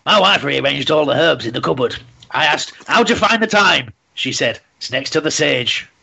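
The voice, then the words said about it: Imitates another person's voice. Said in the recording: “Was that a good impression of Bernard Manning? ... That was very, very good. ... almost perfect”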